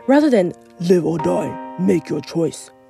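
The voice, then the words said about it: Imitates the Jigsaw character voice. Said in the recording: “That's my Jigsaw impression.”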